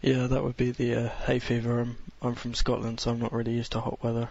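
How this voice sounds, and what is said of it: Sounds a little sick, congested. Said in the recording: “You sound a little sick”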